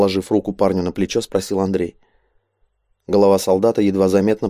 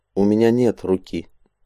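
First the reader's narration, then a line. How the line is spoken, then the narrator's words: Calm, matter-of-fact. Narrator (Russian): спокойно, словно констатируя факт, ответил Хатшак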